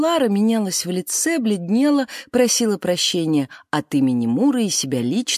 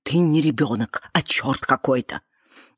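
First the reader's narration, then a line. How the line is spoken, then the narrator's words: Whisper. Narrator (Russian): шептала Муре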